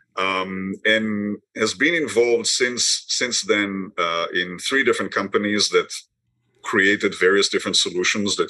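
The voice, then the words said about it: Israeli-accented English. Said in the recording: “as you can hear from my accent, I wasn't born here. I was born in Israel”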